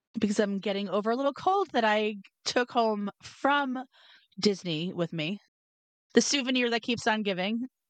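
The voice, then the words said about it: Hoarse voice. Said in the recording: “I'm a little bit hoarse because I'm getting over being sick”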